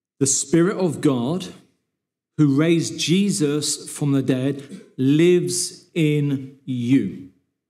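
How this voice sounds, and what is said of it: Reads slowly and deliberately. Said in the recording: “read this slowly”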